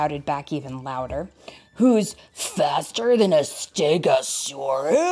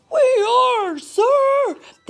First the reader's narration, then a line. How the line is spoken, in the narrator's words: they shouted back even louder this time